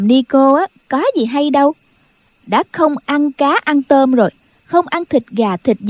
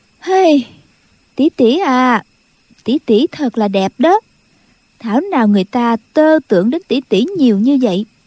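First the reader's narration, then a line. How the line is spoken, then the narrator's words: Sighing. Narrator (Vietnamese): Khúc Phi Yên thở dài nói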